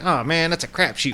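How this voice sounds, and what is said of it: 1920s-style character voice. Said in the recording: “That was my impression of somebody from the 20s. ... It was nailed. ... that guy with that particular accent”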